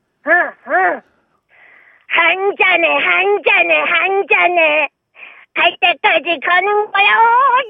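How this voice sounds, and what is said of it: Cartoon character voice impression. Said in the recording (Korean): “도라에몽 성대모사하겠습니다”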